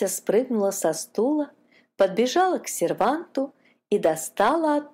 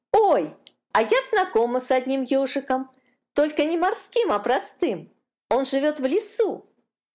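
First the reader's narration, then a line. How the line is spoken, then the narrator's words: Excited exclamation. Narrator (Russian): воскликнула Катюшка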